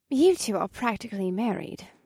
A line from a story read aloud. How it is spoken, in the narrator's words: Alyssa pointed out in a happy tone